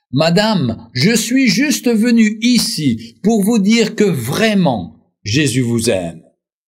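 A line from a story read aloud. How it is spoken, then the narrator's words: Cherubic exclamation. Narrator (French): Il s'écria d'une voix de chérubin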